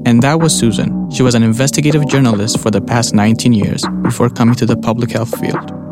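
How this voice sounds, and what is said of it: Ethiopian accent. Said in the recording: “You may have noticed his accent. He's from Ethiopia.”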